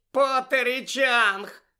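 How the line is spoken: Shout amid snide giggling. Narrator (Ukrainian): закричала Пенсі під акомпанемент єхидного хихотіння

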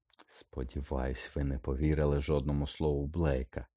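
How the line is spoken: Hiss. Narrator (Ukrainian): просичав Снейп

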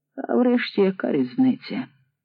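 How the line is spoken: Tired. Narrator (Ukrainian): втомлено мовив

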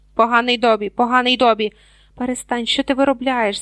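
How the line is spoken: Hiss. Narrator (Ukrainian): зашипів Гаррі

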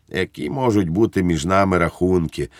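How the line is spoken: Gentle. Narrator (Ukrainian): лагідно сказав Благнік

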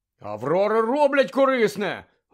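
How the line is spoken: Exclaiming. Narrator (Ukrainian): вигукнув Гаррі

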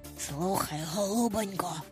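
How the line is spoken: Whispered. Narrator (Ukrainian): прошепотів

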